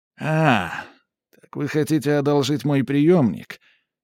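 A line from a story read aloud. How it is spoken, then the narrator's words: Sighing. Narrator (Russian): Макс вздохнул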